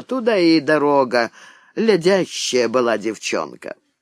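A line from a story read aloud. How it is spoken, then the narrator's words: Tired, weary. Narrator (Russian): Утомленная треволнениями дня, она сказала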